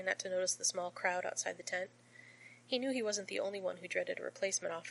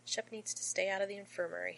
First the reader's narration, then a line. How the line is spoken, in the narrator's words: he thought sadly